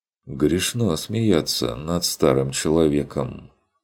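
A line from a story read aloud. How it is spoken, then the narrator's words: Reproachful sigh. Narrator (Russian): укоризненно вздохнул Фокт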